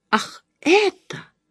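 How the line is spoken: Exclamation. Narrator (Russian): воскликнула миссис Бентри

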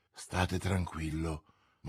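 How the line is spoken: Murmur. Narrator (Italian): mormorò Milady

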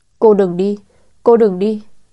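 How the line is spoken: Child's plea after sobbing. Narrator (Vietnamese): Thế Duy nức nở hồi lâu, chờ thằng nhóc bình tĩnh lại, câu đầu tiên nói chính là

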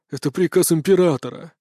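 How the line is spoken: Resigned exhale. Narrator (Russian): обреченно выдохнул очкарик

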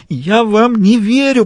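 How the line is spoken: Moaned. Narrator (Russian): простонала она

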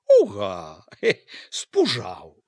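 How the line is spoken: Laughing. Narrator (Belarusian): Ганна засмеялася

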